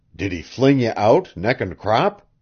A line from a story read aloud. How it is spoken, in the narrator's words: gasped at last